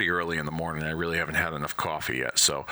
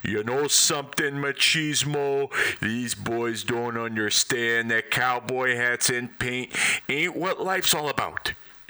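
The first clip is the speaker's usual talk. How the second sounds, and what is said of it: Imitates another person's voice. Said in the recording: “my best Ric Flair impression”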